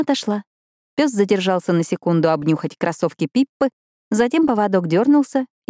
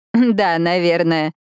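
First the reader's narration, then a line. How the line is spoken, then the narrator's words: Awkward laugh. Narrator (Russian): неловко рассмеялась Гейл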